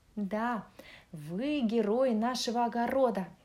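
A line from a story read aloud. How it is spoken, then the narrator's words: Plain. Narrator (Russian): сказала морковка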